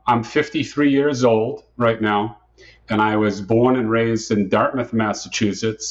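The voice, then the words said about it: New England American accent. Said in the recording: “my accent isn't Floridian, so they, they, uh, they still call me a Yankee”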